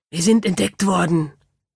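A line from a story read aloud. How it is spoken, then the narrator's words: Hissing. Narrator (German): zischte es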